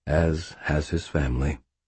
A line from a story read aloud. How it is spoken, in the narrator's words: Uriel said, his voice warm